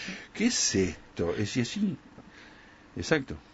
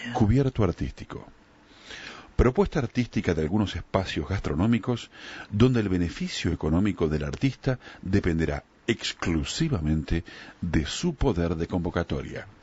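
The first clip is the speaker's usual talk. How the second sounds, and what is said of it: Radio announcer voice. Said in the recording (Spanish): “te lo pongo en voz de locutor ... va locutor de FM”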